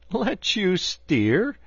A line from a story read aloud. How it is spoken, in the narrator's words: replied the barge-woman, laughing